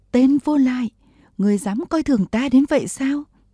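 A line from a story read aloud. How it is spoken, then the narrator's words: Screaming. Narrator (Vietnamese): Vừa thét, Bùi Thị Xuân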